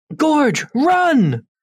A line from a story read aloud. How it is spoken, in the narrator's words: Nor will put a fearful tone into his voice and yell